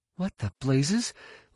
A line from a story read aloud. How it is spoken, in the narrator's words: Leia gasped